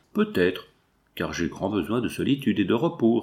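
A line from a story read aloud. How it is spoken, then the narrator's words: Curt, dry reply. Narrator (French): répliqua sèchement Madame Valcourt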